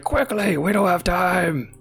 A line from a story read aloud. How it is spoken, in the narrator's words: they scream out